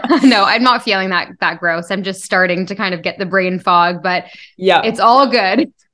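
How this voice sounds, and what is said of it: Sick, under-the-weather voice. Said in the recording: “I'm actually a little bit under the weather right now. You might be able to hear it from my voice”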